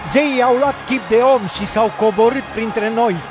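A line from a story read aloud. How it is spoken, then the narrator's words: Crowd shouting. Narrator (Romanian): mulțimile au ridicat glasul și au strigat în limba licaonă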